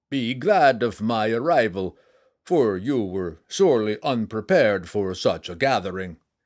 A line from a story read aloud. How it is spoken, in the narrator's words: he said with a hearty laugh